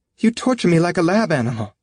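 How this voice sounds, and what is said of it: High-pitched tense character voice. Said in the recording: “eyes narrow, mouth tight, voice high”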